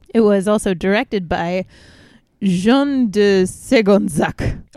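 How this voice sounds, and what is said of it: Put-on French accent on a name. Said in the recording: “perfect French accent.”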